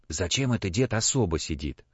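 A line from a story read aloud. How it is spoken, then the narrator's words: Quiet question. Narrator (Russian): Егорушка спросил тихо у Степки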